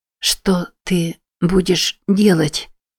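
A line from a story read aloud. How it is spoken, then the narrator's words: Hoarse rasp. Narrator (Russian): прохрипела она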